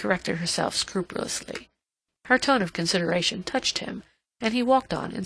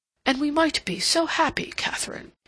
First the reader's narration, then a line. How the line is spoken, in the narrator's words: he exclaimed impulsively